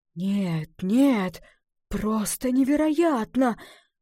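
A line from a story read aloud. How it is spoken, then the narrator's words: Breathless exclamation. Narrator (Russian): выдохнул лесник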